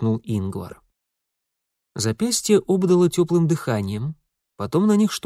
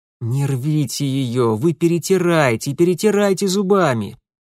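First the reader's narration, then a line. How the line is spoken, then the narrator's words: Muffled groan. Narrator (Russian): простонал Митя, в очередной раз утыкаясь лицом в грязный пол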